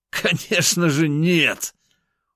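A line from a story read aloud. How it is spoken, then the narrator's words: Laughing. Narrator (Russian): Он вновь рассмеялся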